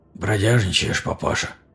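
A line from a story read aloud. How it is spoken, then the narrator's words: Hoarse young man asking. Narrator (Russian): хрипло спросил парень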